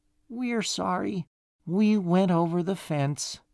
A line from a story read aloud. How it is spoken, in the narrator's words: finally, muttered